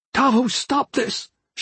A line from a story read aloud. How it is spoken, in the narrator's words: cried